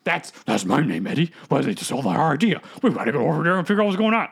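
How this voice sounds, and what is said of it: Gruff monster character voice. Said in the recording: “doing that voice for Venom ... pretty good”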